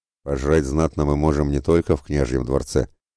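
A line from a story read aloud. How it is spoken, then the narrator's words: Snorting with full mouth. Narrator (Russian): хмыкнул Яромир с полным ртом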